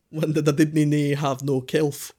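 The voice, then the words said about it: Scottish accent with a lisp. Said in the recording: “if you imagine a Scotsman with a lisp ... that's a good accent ... That was actually very accurate.”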